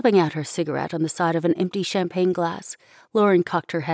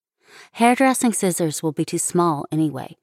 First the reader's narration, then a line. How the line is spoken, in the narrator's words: Shelley said